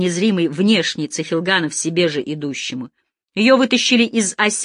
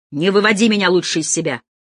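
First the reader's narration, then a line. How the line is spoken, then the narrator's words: Snapped while walking. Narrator (Russian): огрызнулся Цехилганов на ходу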